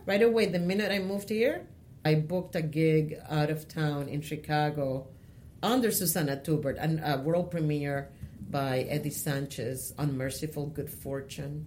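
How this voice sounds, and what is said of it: Latina accent in English. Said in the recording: “a Latina may be with an accent, because my accent is not erased”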